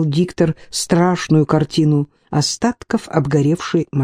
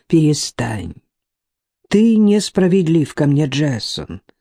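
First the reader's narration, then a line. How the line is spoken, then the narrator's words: Calm, persuasive. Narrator (Russian): спокойно убеждал его Магнус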